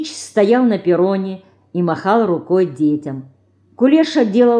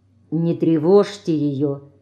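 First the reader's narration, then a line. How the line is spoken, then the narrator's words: Quiet. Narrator (Russian): тихо сказал девочкам Ленька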